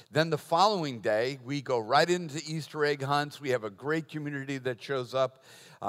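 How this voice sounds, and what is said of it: Boston accent. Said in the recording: “laughing about my accent ... he's from Boston”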